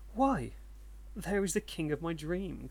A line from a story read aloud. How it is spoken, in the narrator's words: cried Akinosuke